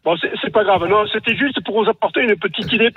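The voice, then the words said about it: Regional French accent. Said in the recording (French): “avec mon accent, c'est pas évident”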